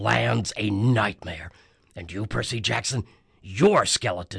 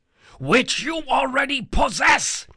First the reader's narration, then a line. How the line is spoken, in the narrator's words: Hades shouted